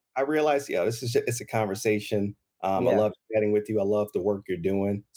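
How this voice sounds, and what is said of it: Southern Louisiana accent. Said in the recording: “I was listening to that little accent ... I'm originally from Southern Louisiana. So down south, country boy”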